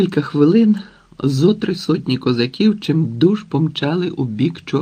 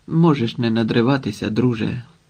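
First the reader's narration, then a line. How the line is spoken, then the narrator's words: Quiet, into the ear. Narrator (Ukrainian): тихо мовив Швайка на вухо Вітрикові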